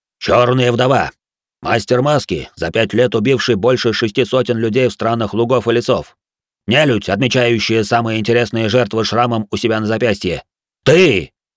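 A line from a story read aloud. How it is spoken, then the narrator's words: Fierce bark. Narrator (Russian): Хару рявкнул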